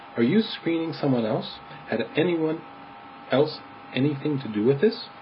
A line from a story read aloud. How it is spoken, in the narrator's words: said the vicar kindly